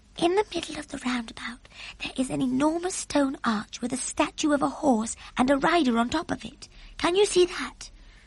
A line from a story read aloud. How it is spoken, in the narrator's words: Sophie whispered